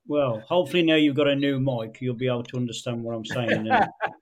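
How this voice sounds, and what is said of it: West Midlands English accent. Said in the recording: “that West Midlands accent I do struggle with”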